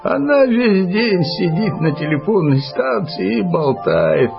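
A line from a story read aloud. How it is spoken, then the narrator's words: Grumbling. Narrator (Russian): проворчал Килим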